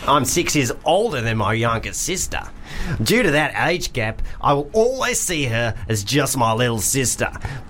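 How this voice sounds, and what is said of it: Put-on Australian accent. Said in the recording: “I'm just going to do Australian because I don't really know what the difference is.”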